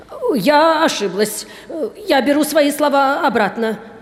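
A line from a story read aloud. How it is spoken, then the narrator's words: Babbling apology. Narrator (Russian): лепетала мисс Эндрю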